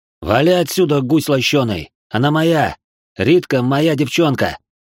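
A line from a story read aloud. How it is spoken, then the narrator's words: Peremptory growl. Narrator (Russian): Прорычал безапелляционно Мирон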